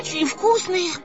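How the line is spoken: Shouted. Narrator (Russian): прокричал Наф-Наф

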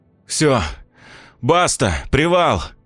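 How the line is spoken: Breathless exhale. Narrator (Russian): выдохнул

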